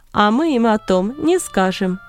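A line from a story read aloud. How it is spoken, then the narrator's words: Laughing. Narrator (Russian): засмеялся Варнава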